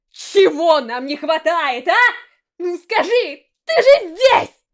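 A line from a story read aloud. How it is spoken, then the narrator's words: Desperate shout. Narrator (Russian): В отчаянии крикнул Рико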